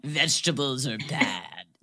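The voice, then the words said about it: Imitates another person's voice, sexy-sounding. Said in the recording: “my imitation of Curtis ... Sounds like a sexy man.”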